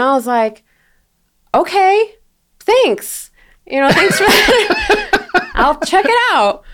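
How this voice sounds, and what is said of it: Usual voice. Nothing is said of it.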